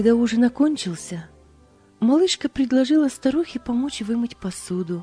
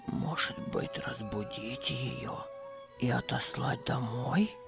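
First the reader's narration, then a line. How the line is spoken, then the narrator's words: Old man's whispered question. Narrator (Russian): шепотом спросил старик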